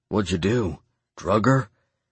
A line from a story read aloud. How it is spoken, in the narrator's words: whispered under my breath